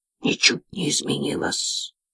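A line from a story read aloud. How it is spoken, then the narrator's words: Hissing. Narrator (Russian): прошипел он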